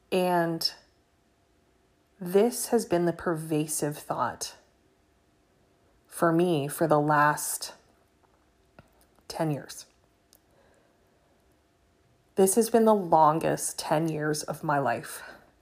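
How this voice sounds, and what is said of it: Emotional, strained voice. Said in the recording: “I'm sorry for getting emotional”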